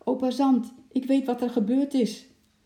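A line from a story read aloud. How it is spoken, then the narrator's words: Called out. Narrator (Dutch): riep Lotje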